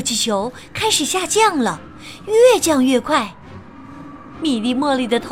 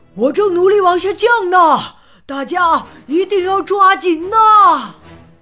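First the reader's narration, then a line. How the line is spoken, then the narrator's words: Loud and worried. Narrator (Chinese): 查理大叔也很担心呢，他大声说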